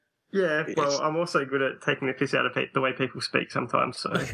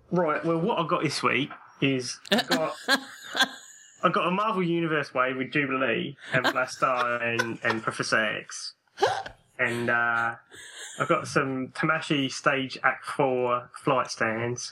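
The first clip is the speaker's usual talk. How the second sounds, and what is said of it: Put-on English accent. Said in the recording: “doing an English accent ... That was very good”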